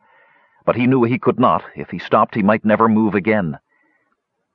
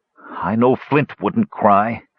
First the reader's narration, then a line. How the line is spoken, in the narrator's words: he sputtered through clenched teeth